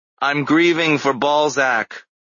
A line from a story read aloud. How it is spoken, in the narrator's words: I shouted back